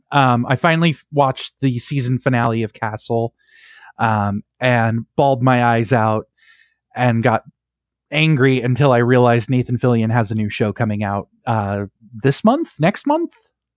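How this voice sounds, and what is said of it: Slightly hoarse voice. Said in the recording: “I've been talking all day for my day job. So I'm a little hoarse.”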